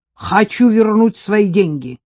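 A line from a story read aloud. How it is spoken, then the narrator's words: Loud declaration. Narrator (Russian): заявила она громко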